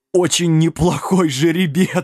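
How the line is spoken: Laughing harder. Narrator (Russian): Сэм засмеялся еще сильнее

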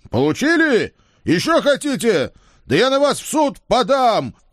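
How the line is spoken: Happy yelling. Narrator (Russian): счастливо орал я вслед неизвестно кому

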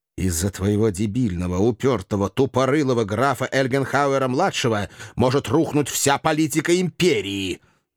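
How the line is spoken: Angry hiss. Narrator (Russian): злобно прошипел

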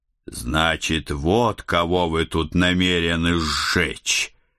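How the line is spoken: Snarling growl. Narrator (Russian): прорычал я

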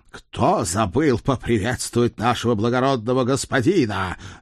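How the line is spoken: Barked. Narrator (Russian): рявкнул Седрик

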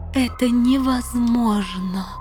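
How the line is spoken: Moaning. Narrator (Russian): простонала королева Танитриэль

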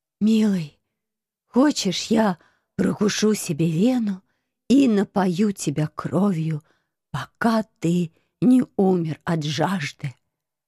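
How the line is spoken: Theatrical hoarse rasp. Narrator (Russian): Пафосно прохрипела я, изображая Медею

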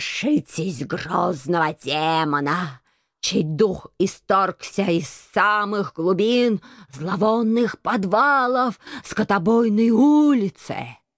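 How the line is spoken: Hoarse slobbering shout. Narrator (Russian): Хрипло прокричал он, тряся подбородком и пуская слюни

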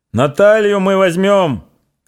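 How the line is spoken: Shouting while running. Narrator (Russian): кричал Пантелей Прокофьевич

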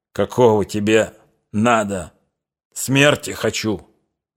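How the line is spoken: Growling. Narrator (Russian): зарычал Лихачев

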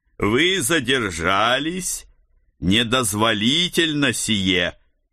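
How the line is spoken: Strange metallic voice. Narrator (Russian): Каким-то странным металлическим голосом произнесла фигура

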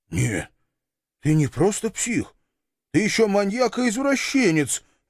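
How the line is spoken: Stunned, forced out. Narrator (Russian): обалдело выдавил

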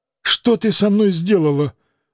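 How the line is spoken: Grumbled. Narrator (Russian): пробурчал

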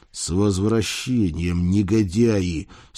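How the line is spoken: Muttered through clenched teeth. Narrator (Russian): сквозь зубы процедил я

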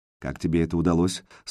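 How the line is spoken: Dry voice over phone. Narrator (Russian): сухо спросил голос в трубке

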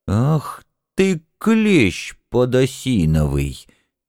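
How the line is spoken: Quietly seething interjection. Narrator (Russian): тихо закипая, встрял горох

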